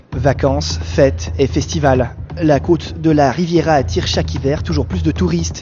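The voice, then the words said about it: TV documentary voice-over narrator voice. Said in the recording (French): “avec avec voilà cet accent ... de présentateur de voix off”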